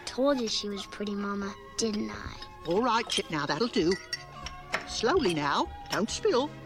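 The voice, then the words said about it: London English accent. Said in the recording (Spanish): “Ahí está con su acento de Londres”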